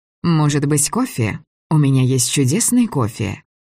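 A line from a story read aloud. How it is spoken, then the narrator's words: Calm, unaffected. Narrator (Russian): Говорила она совершенно спокойно, без страха и без жеманства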